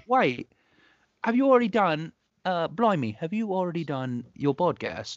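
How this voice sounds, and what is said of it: Put-on British accent. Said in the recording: “I have to do a British accent”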